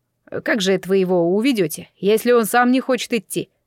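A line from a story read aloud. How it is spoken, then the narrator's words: Skeptical snort. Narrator (Russian): хмыкнул Сяо Гу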